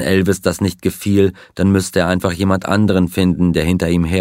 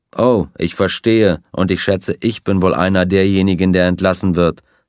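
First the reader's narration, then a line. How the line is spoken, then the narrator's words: Plain. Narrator (German): sagte Sonny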